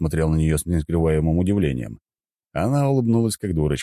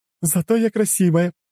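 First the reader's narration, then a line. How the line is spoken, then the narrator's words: Bursting out laughing. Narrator (Russian): расхохоталась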